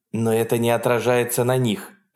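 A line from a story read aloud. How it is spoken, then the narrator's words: Sharp reply. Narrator (Russian): резко ответила Хонор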